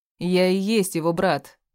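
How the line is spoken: Emphatic shout. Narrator (Russian): с нажимом выкрикнул Уолтер

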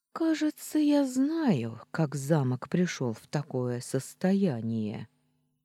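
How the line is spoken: Stunned speech, sigh. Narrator (Russian): ошеломленно проговорила я и вздохнула

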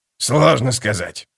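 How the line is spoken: Muttered. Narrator (Russian): пробормотал скрипач

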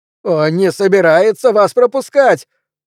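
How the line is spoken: Shouting over wind. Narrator (Russian): прокричал сквозь ветер Пелвис

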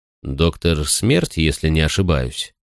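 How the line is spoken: Plain question. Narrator (Russian): спросил я

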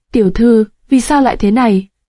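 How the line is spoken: Trembling voice. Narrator (Vietnamese): giọng nàng run rẩy

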